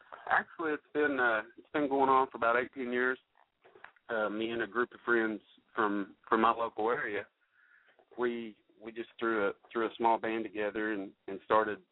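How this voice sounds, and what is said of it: Country-sounding accent. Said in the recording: “I can tell by your accent that you had to sing country”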